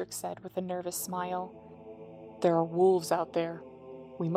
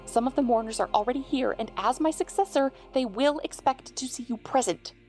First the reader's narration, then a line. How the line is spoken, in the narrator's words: he said sharply